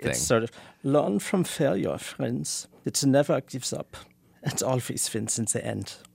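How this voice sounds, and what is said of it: Put-on Germanic accent. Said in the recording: “put on your Adorno accent. ... It's much more ... Germanic.”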